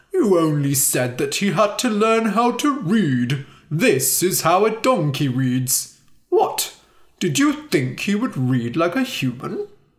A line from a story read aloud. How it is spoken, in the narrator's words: Timur laughed